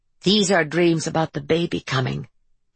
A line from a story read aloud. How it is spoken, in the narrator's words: Harper said to herself in a low voice